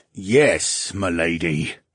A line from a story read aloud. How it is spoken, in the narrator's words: the coachman grumbled